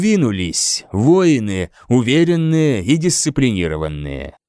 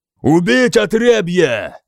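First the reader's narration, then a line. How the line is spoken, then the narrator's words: Shouted. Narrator (Russian): прокричал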